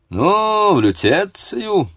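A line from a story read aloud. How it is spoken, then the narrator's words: Loud lordly question. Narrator (Russian): по-барски громко спросил академик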